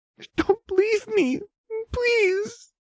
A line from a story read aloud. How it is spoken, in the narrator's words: the girl whimpering